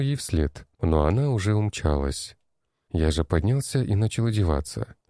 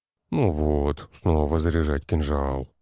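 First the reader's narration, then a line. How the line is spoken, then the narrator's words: Grumbling. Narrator (Russian): проворчал я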